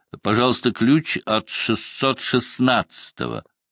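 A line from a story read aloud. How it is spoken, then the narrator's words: Loud. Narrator (Russian): Я громко сказал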